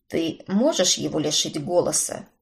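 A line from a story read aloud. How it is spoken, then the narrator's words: Gruff mutter. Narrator (Russian): буркнул Брент-старший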